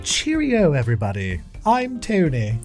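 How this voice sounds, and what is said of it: Deliberately bad put-on English accent. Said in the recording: “offensively bad English accent”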